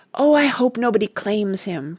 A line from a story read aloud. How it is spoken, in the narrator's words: breathed Randy fervently